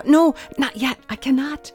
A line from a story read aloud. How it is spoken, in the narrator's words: could only gasp out